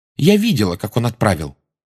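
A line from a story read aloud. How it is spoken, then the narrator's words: Angry interruption. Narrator (Russian): сердито вмешалась Джоу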